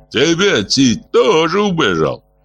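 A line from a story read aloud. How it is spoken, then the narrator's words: Mocking retort. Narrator (Russian): насмешливо бросил Гаргасал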